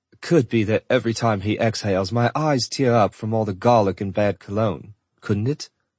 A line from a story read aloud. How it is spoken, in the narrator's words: She chuckled and covered her mouth